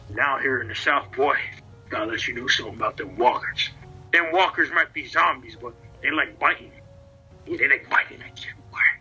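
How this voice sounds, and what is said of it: Put-on Western cowboy accent. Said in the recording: “My Western accent. I've been playing a lot of Red Dead Redemption lately.”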